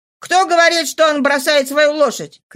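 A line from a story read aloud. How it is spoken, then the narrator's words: Young man shouting. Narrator (Russian): кричал молодой человек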